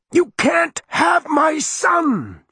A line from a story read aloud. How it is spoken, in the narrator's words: she screamed